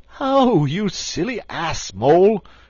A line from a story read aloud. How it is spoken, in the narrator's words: cried Toad